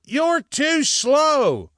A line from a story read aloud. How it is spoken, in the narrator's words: he shouted back, much like Goliath might have shouted at the hosts of Israel